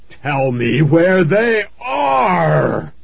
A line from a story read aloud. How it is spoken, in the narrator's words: the hot, smelly breath roared over me